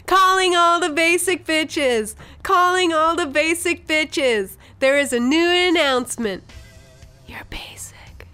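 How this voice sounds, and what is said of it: Imitates another person's voice. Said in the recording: “do a Lou Anthony impression”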